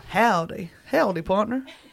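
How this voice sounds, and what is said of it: Put-on Texan accent. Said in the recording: “can you give me one more accent? ... Texan.”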